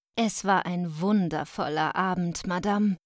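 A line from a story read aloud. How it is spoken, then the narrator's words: Plain. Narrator (German): sagte meine Mutter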